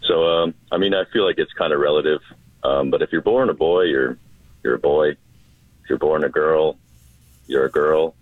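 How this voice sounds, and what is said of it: Put-on radio announcer voice. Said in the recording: “beautiful right, voice ... I'm trying out my radio voice this morning”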